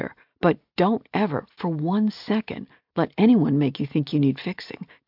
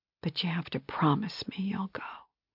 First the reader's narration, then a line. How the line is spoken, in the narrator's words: she whispered